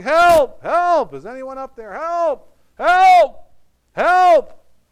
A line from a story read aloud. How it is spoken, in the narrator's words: yelled for a long time, but he was losing his grasp